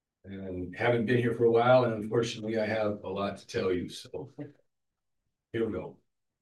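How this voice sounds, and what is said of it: Rough, sick-sounding voice. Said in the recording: “Apologize for my voice. It's a little cold.”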